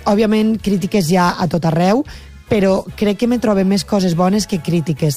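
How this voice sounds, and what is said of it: Valencian Catalan accent. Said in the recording (Catalan): “volem que continues mantenint el teu accent, la teua llengua, la teua parla ... la valenciana”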